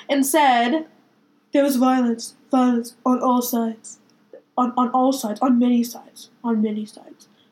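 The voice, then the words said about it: Imitates another person's voice. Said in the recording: “I love how your accent was just so spot on. ... My Trump impression.”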